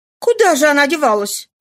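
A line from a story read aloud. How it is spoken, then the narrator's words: Loud exclamation. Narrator (Russian): воскликнула она громко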